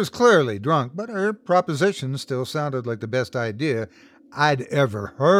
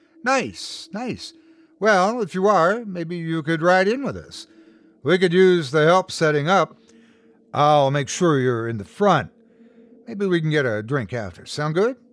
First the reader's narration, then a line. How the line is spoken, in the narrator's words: Her words slurred together a little bit